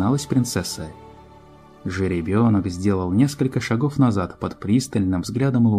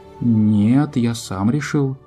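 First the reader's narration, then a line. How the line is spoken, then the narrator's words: Uncertain child's voice. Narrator (Russian): неуверенно говорил малец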